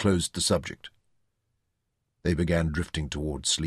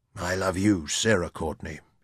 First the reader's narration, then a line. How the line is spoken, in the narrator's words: he replied